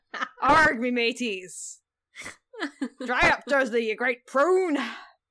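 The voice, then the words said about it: Weird pirate accent. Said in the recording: “I'm kind of doing a weird pirate accent.”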